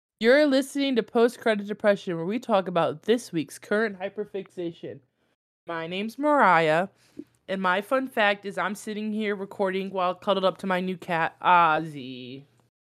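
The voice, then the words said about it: Stuffy, congested voice. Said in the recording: “I'm a little stuffy, so if I sound weird, that's why... She's sick as a brick.”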